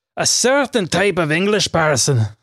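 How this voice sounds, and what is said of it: Poorly done put-on English accent. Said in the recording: “so of course I'm going to do the correct accent ... That was awful.”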